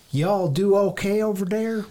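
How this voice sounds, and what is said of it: Mixed Minnesota-Texas put-on accent. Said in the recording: “That was kind of a combination of Minnesota and Texas.”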